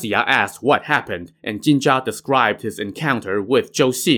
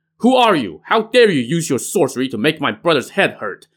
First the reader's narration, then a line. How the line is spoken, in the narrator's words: Mu Zha shouted